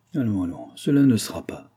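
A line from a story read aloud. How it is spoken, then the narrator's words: Murmured. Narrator (French): murmura-t-il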